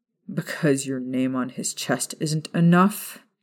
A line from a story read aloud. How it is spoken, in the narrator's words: James asked from behind Sirius, his tone less than pleasant